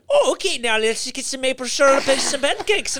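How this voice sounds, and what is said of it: Put-on Minnesotan accent. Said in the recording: “more and more Minnesotian ... she'll make a Minnesotan accent.”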